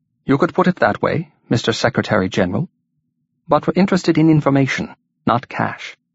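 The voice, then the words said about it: Soft, lilting, musical Welsh accent. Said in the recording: “The leader replied in a musical Welsh accent. ... in his softly lilting voice”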